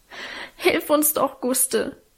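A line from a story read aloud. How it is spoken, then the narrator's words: Sobbing. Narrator (German): schluchzte Alvine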